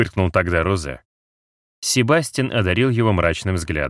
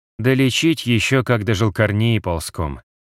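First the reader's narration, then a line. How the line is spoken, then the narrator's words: Sigh, then sudden fury. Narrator (Russian): вздохнул он и вдруг с неожиданной яростью выпалил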